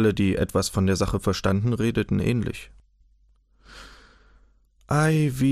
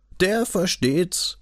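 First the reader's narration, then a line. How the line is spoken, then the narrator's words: Mocking. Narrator (German): höhnten sie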